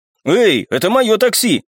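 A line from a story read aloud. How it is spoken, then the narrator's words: Indignant. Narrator (Russian): возмущенно заявил я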